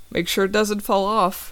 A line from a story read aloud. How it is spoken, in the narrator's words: I say with a little laugh